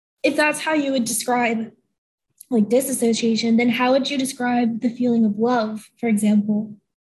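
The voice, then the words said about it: Voice gone, strained and weak. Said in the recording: “my voice just went out ... I'm going to be speaking like this for the perceivable part of the podcast”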